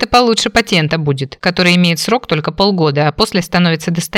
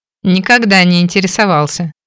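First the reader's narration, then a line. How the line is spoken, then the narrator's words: With a snort. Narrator (Russian): хмыкнул Фрэнк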